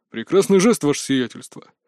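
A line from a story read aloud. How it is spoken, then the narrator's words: Deep bass voice. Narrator (Russian): пробасил Владислав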